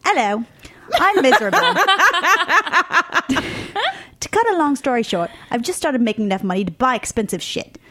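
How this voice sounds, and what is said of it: Deliberately bad British accent. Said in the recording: “I'm finally justified in doing an accent... may or may not be a British person, or she just lives in London... I'm going to do a terrible job with this accent.”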